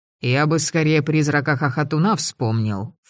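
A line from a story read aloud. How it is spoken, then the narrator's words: Snorting. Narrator (Russian): фыркнул невидимый Полынь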